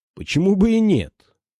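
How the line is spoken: Almost cheerful. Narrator (Russian): проговорил Морган почти весело

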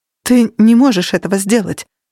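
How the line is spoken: Shocked voice. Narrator (Russian): сказала Кира шокированным голосом

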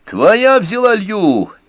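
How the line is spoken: Shouting. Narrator (Russian): закричал Мускоти

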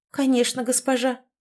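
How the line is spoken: Muttering. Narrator (Russian): пробормотала Хлоя, самая грозная и скорая на расправу девушка из моей команды

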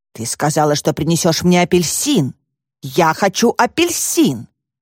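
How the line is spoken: Child growling furiously. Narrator (Russian): ребенок яростно прорычал

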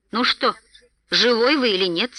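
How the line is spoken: Rather angry question. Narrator (Russian): спросил, наконец, Бильбо, довольно-таки сердито

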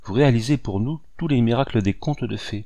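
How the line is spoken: Coaxing girl's voice. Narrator (French): ajouta la jeune fille d'une voix câline

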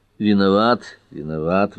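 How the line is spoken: Sighing. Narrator (Russian): вздохнул Эллери

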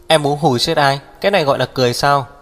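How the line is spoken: Displeased loud shout. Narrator (Vietnamese): Hắc Viêm Triệt không vui, hét lớn

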